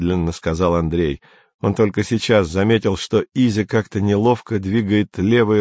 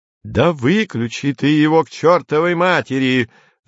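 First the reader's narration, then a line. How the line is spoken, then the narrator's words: Shouted. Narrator (Russian): заорал Кенси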